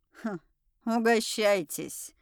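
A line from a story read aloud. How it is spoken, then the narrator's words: Snorted. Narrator (Russian): хмыкнула Тайра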